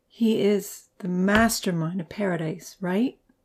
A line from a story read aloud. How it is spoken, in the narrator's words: Amy murmured